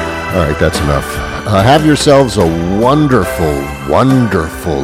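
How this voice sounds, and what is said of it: Usual voice. Nothing is said of it.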